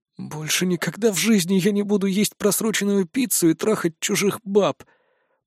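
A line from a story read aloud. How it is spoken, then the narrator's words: Muttered under breath. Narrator (Russian): успел пробормотать себе под нос я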